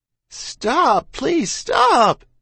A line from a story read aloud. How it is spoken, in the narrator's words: Ma cried